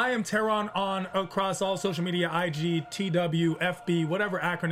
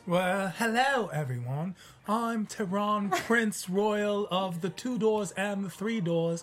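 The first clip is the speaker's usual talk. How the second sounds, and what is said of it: Bad put-on British accent. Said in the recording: “I have the worst British accent, by the way. ... That's not so good”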